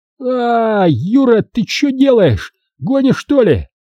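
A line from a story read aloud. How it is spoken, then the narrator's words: Shouting. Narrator (Russian): закричал качок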